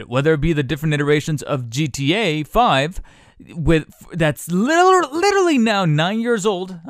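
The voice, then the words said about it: Yelling loudly into the microphone. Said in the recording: “I'm yelling into the microphone”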